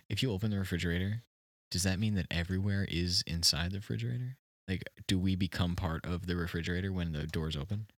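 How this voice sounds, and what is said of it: Mock-serious tone of voice. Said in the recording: “I'm getting serious now. This is my serious voice.”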